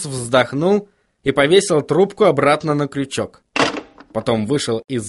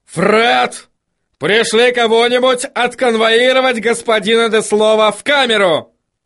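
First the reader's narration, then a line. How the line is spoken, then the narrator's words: Yell. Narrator (Russian): заорал он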